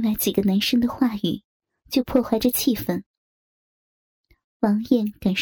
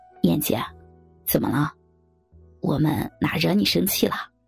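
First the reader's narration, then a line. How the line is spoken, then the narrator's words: Desperate, through gritted teeth. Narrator (Chinese): 王艳的声音透着一丝的绝望感，咬牙切齿地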